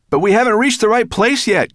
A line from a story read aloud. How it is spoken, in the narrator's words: cried Ben